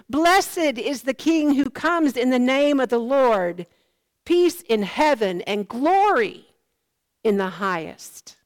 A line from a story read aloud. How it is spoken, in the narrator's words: they shouted